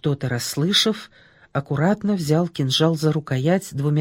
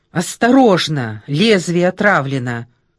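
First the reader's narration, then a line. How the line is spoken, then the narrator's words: Shouting. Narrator (Russian): крикнула она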